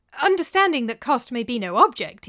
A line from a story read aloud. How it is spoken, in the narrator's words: he added hastily, remembering who he was talking to